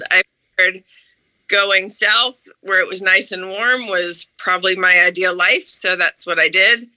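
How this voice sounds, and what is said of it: Slight Southern-influenced American accent. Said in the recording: “now you can hear it in my voice”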